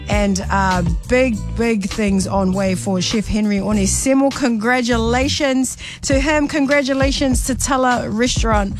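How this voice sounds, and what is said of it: Samoan accent. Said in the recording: “that's my Samoan accent coming out”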